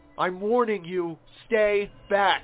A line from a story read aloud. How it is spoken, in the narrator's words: I yelled in panic